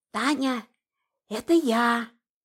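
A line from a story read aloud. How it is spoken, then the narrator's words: Whisper. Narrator (Russian): Тетя Поля шептала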